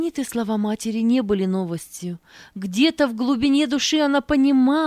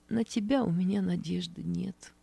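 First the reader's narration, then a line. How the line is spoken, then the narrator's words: Quiet reply. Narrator (Russian): Нина Матвеевна тихо ответила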